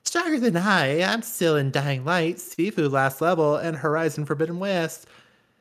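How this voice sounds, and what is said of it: Imitates another person's voice. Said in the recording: “I'm gonna say this in Rob's voice ... Great Robert impression.”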